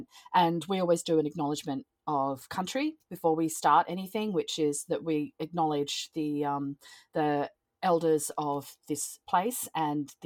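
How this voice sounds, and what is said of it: Australian accent. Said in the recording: “I'm from Australia, so as you can hear by the accent”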